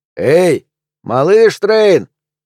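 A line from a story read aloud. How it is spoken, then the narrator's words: Shout. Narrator (Russian): крикнул Барт в сторону плавучего дома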